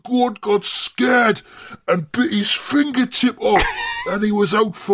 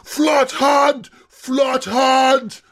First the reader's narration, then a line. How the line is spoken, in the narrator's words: We were all shouting